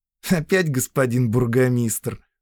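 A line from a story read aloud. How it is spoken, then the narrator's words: Snorted. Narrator (Russian): фыркнула Зоя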